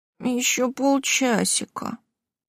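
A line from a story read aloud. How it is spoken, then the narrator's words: Sleepy drawl. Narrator (Russian): сонно протянула я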